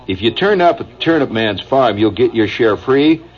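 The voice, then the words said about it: Indiana regional American accent. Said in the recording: “my Indiana accent ... I slightly shift gears. I've become Indiana again ... couldn't you follow my accent?”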